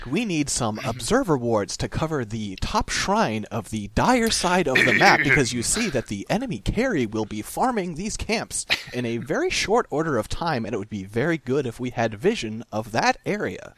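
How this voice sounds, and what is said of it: Put-on podcast voice. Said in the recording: “did my podcast voice”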